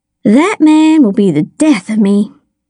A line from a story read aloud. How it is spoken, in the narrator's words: she sighed